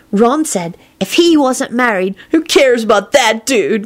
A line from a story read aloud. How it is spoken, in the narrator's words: Kenny blurted out irritably